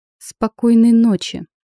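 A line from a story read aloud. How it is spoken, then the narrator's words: Through clenched teeth. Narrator (Russian): процедила я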